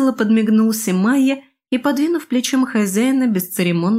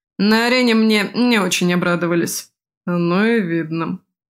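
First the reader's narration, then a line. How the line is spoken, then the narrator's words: Grumbling. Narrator (Russian): проворчал Крет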